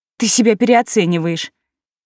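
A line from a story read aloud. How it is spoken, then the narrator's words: Hasty scoff. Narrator (Russian): Слишком поспешно хмыкнула я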